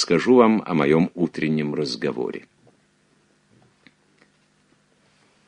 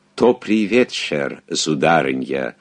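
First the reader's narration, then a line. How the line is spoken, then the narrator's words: Foreign accent. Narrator (Russian): с акцентом эльзасского швейцара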